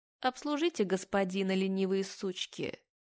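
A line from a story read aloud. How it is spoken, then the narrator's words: Cold command. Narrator (Russian): Холодно приказывает она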